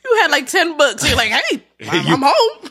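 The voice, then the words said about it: Exaggerated chipper imitation of another person. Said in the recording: “that her impression of me? ... It was a little hyperbolic”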